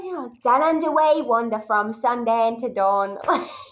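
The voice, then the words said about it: Singing in a poor Australian accent. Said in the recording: “That's not an easy dialect to nail ... did the little song in a terrible Australian accent”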